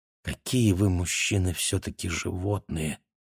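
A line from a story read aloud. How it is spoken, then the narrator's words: Quiet but distinct. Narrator (Russian): сказала она мне тихо, но отчетливо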